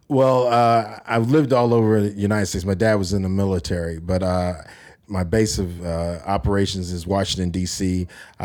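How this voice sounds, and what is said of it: American accent. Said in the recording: “I'm sure people have guessed by your accent that you are American.”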